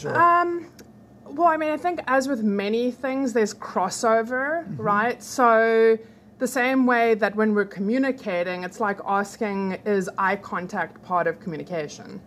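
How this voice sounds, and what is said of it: South African accent. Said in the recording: “South Africa. South Africa. South Africa. ... Your accent it's fabulous.”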